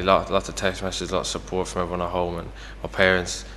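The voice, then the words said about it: Broad Irish accent. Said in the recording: “we can hear your broad Irish accent”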